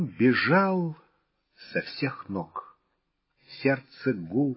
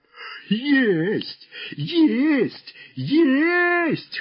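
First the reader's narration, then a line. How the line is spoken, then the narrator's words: Dead men guffawing. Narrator (Russian): хохотали мертвецы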